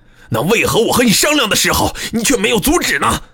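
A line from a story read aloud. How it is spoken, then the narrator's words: Furious roar. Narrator (Chinese): 他满脸通红，大声咆哮起来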